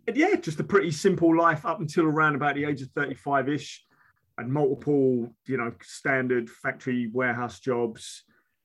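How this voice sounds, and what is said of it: Strong London and Essex accent. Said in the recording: “I was born London, moved out into Essex, and I've always been back and forward between London and Essex, which is why the accent is really strong. I'm toning it down at the moment”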